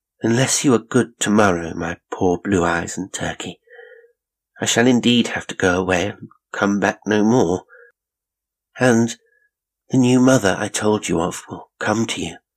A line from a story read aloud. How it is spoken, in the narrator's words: said, sadly